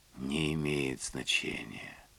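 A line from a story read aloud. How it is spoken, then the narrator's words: Whispering. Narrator (Russian): прошептала Лилиан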